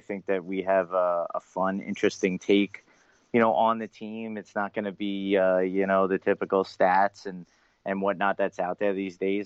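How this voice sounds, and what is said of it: Long Island accent. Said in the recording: “my Long Island accent ... That's a wonderful accent”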